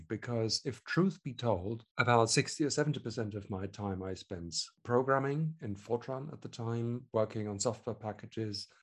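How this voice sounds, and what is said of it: German accent. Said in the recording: “I was born in Germany, I should add, which you can probably hear from the accent”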